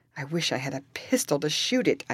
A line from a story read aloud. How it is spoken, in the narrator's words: exclaimed